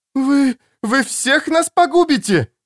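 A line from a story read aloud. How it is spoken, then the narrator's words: Shrieking. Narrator (Russian): завопила Элина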